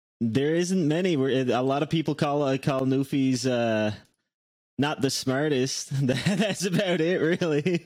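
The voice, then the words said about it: Newfoundland accent. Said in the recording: “your accent. What is an interesting Newfoundland fact?”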